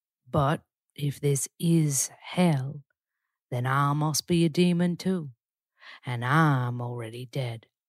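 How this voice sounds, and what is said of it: Elsa Dutton, low-register Southern accent. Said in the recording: “That's Elsa Dutton. It's quite tricky, but see how that lower register suits my voice ... I love the Southern accent's amazing.”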